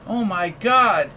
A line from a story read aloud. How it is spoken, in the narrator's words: exclaimed Effie